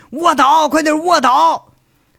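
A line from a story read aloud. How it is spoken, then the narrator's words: Several distant shouts. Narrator (Chinese): 街外的巡警却是有好几个人喊了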